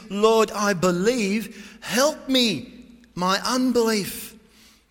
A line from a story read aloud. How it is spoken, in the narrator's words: He cried out with tears